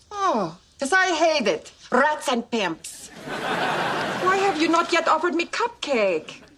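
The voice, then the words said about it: Polish accent. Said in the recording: “Is that a Polish accent I'm detecting? ... Yes.”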